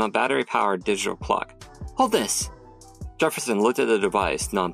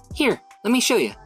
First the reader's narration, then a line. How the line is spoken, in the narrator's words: said excitedly